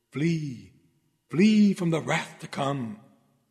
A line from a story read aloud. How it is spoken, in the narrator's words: the Holy Spirit whispers in his ear